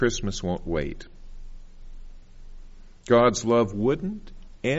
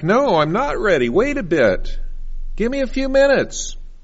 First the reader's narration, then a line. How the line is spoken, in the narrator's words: I want to shout back